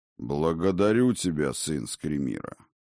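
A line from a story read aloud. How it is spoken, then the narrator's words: Solemn proclamation. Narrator (Russian): торжественно провозгласил Один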